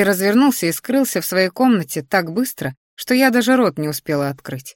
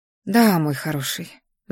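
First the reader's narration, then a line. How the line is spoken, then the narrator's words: Sigh. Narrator (Russian): вздохнула я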